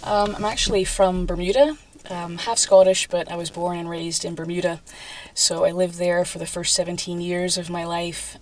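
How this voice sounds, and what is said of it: Unusual mixed accent. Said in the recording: “you've got a bit of a strange accent”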